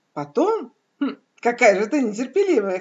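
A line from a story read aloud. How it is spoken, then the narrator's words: Amused snort. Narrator (Russian): хмыкнула цель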